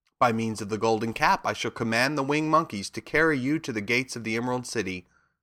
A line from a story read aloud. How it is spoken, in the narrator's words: said Glinda